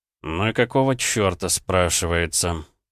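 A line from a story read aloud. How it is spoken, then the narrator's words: Annoyed mutter under breath. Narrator (Russian): пробормотал парень под нос, когда обнаружил, что лавка оказалась заперта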